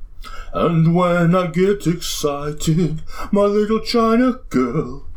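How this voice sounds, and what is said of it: Sung imitation of another singer's voice. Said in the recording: “I could do a pretty good Bowie voice. ... Do a Bowie voice. ... That's really good. ... Oh, it's pretty good.”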